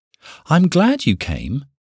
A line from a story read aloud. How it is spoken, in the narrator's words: she said cheerfully